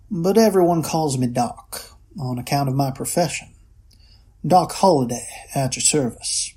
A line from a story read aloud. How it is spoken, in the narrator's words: the man said in a lazy southern drawl